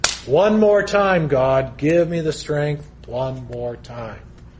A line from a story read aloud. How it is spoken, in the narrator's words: called out to God, and he said